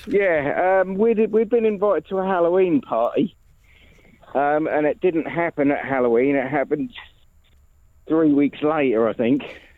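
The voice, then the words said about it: Out of breath, breathy speech. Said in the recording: “I'm a bit out of breath because I've just been working. ... Why are you so out of breath?”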